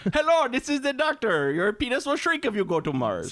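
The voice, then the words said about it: Put-on Indian accent, commercial doctor. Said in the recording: “I don't know what accent they're trying to do there. ... I think they're trying to do Indian.”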